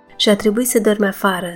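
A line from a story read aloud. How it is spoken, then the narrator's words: Plain. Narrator (Romanian): spuse ea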